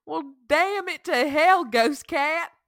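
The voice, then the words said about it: Country accent. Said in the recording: “Why do I have a country accent now”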